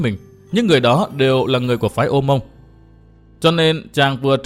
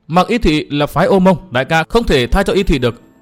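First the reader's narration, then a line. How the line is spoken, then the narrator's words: Loud interrupting youth. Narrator (Vietnamese): thiếu niên áo trắng ngắt lời và lớn tiếng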